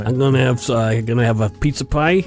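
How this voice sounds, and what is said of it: Put-on Brooklyn New York accent. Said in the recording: “this next one I have to say with an accent ... from Brooklyn, New York ... Well, that's well done.”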